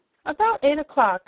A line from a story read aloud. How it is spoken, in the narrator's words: said Billina